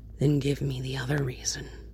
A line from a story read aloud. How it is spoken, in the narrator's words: Bruce asks softly